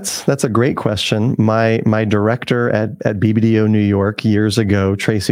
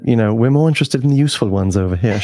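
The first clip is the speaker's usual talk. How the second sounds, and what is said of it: Put-on British accent, dropped T's. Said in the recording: “the British accent. ... you've got the British with the T missing”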